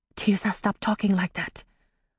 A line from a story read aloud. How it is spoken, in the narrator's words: Amari whispered back